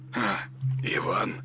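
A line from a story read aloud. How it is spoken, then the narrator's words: Mumbling. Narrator (Russian): промямлил он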